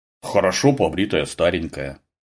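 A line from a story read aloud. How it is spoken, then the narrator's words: Embarrassed grumble. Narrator (Russian): проворчал смутившийся Глеб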